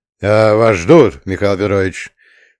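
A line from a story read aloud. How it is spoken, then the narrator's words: Deep booming voice, big man. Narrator (Russian): пробасил здоровенный секретарь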